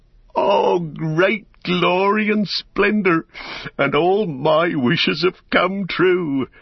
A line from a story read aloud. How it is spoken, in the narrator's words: he laughed aloud for sheer delight, and he stood up and cried